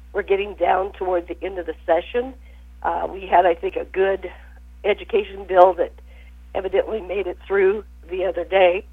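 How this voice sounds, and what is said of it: Hoarse, sick-sounding voice. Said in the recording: “apologize for my voice. ... I've been struggling with things that are going around.”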